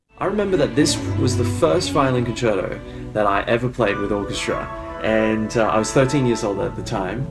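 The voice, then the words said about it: Australian accent. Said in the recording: “he's activated his Australian accent for this interview”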